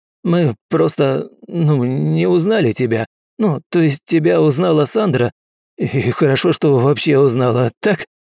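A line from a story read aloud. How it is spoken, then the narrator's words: Nervous giggle. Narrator (Russian): Нервно хихикнул Уилл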